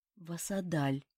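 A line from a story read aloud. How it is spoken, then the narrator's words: Lifeless flat voice. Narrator (Russian): безжизненным голосом ответила Ута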